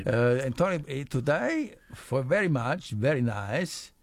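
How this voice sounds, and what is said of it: Bad put-on Spanish accent. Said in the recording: “You sound like Nadal there ... awful accent”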